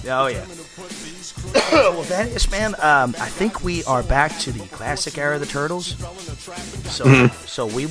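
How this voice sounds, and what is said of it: Hoarse, froggy voice. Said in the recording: “My voice is shot ... my froggy throat”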